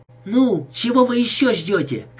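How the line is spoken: Shout. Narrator (Russian): крикнула Фан

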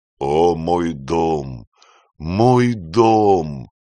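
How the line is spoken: Moaning old man. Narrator (Russian): стонал старый Бинони

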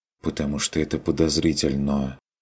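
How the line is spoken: Quiet suggestion. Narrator (Russian): тихо предположила Адельхайда

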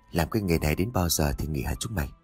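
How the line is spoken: Fat man asking. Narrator (Vietnamese): Một tên béo bụng phệ chớp miệng hỏi

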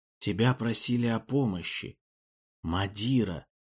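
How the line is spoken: Faint distant whisper. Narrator (Russian): Шепот уст был слаб, как если бы доносился из такой дали, как недра гор Илинди

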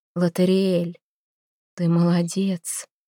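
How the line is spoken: Sorceress's whisper. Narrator (Russian): прошептала колдунья

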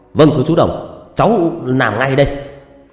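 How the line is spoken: Loud shout. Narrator (Vietnamese): Quân hét to

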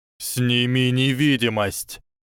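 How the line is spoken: Growl. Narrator (Russian): прорычал Бахри

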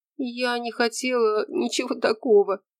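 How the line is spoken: Quiet sob. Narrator (Russian): всхлипнула тихо Раиса

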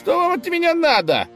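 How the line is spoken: Indignant shout. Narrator (Russian): возмущенно закричал конь

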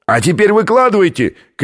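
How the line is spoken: Shout from below. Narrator (Russian): крикнул снизу австралиец

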